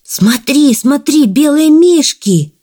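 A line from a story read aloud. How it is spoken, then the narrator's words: Hedgehog shouting. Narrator (Russian): закричал ежик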